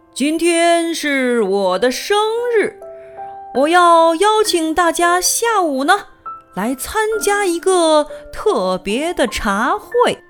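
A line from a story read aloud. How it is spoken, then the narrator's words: Loud announcement. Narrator (Chinese): 他大声宣布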